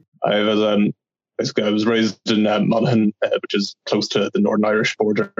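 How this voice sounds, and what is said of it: Irish accent. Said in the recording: “I'm from Ireland, as you might know from my accent.”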